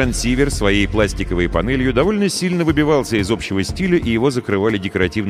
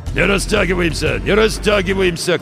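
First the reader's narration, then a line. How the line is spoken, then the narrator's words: Hoarse command. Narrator (Russian): командовал хриплый голос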